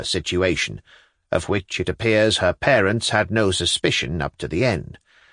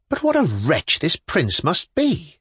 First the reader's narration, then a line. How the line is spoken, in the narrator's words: cried indignantly